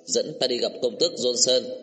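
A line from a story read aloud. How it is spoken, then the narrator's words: Stern and loud. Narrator (Vietnamese): lại nghiêm giọng nói lớn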